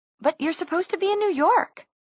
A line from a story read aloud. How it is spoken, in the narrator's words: Isabel exclaimed